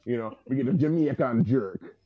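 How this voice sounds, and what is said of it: Put-on Jamaican accent. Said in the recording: “You say it with the accent too”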